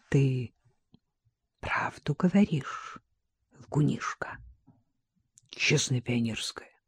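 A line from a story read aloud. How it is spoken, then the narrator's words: Repeated in whisper. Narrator (Russian): она повторила шепотом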